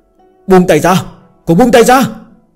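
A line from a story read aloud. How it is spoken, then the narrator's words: Angry shouting. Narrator (Vietnamese): tiếng hét giận dữ của Thương Triều Tông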